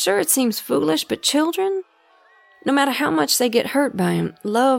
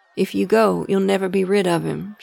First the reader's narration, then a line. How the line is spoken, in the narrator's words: she said